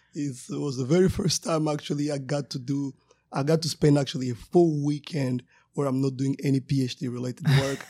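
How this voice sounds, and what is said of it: Somewhat worn, hoarse voice. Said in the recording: “my voice is a little bit gone”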